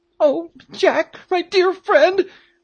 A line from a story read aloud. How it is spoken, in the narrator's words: cried Peterkin, turning pale